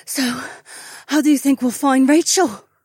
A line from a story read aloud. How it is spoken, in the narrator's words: Sienna gasped